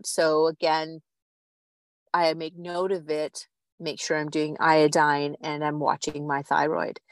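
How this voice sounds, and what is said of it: Slightly strained, weakened voice. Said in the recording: “You can hear my larynx, my voice is a little out.”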